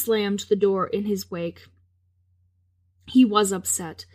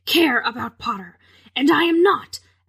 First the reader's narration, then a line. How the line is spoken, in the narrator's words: Severus snarled